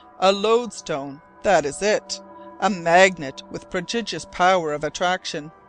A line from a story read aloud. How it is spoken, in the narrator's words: I exclaimed